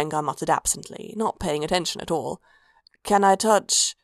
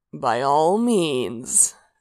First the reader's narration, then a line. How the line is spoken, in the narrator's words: Sanguine purred